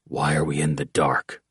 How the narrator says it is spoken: Oates whispered

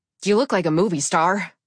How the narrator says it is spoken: I blurted

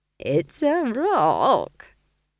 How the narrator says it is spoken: chuckled Nanny Ogg

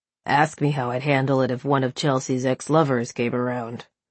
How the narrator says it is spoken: he grunted, then blew out a hard breath

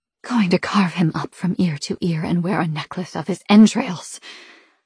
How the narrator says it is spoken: the siren hisses

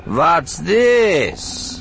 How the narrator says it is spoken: Nyriss asked, her voice mocking

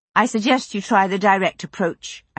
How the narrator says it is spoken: I said

